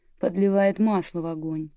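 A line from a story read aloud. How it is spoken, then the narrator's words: Grumbled. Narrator (Russian): проворчал Уэйд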